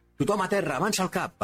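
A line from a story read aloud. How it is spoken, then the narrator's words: Shouting leader, regaining command. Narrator (Catalan): va cridar el líder de l'equip de sal, recuperant finalment la iniciativa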